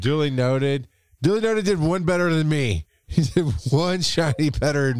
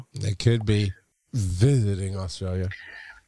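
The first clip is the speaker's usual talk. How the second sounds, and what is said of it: Sarcastic inflection. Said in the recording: “If you can tell by my inflection, I was being sarcastic.”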